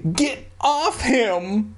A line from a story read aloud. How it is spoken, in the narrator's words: I cried